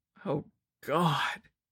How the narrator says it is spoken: he moaned

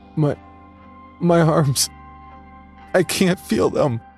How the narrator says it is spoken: he wailed

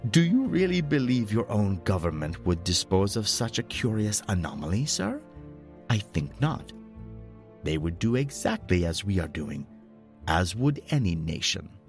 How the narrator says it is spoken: He laughed and added

